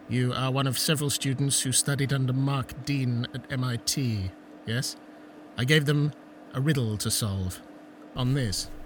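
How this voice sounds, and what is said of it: Foreign accent. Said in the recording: “a foreign accent”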